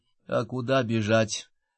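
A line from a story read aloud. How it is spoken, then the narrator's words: Gloomy question. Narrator (Russian): мрачно спросил Мортон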